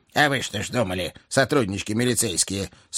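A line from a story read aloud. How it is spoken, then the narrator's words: Sympathetic grumble, raven. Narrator (Russian): сочувственно проворчал ворон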